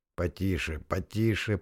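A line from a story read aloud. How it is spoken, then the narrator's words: Through gritted teeth. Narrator (Russian): процедил Дорос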